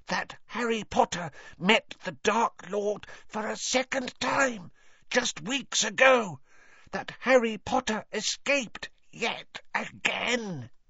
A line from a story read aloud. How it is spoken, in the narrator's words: he said hoarsely